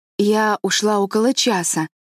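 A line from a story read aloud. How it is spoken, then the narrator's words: Plain. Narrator (Russian): сказала Марилла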